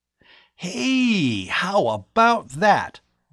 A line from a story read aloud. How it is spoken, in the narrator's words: Bud exclaimed happily